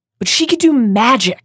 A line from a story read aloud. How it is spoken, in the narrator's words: said Harry impatiently